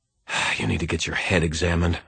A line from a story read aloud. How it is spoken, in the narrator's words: I muttered to myself